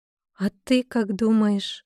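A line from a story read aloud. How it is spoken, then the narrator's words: Timid questioning reply. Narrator (Russian): Робко ответила она вопросом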